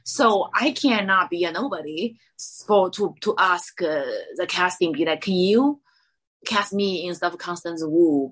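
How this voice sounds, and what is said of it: Non-native English accent. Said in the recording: “they won't cast me because of my accent ... I'm actually fresh in the boat ... I have the real accent”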